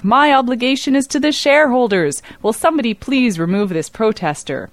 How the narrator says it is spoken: Knight barked back

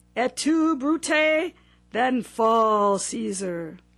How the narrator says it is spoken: in such an explosive voice

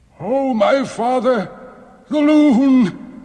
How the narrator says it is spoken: he cried

